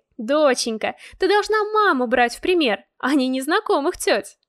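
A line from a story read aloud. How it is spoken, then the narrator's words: Laughing, masking bitterness. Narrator (Russian): Засмеялась она, чтобы скрыть горечь в глазах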